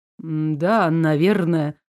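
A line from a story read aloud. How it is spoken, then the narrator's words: Muttered. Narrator (Russian): пробормотал король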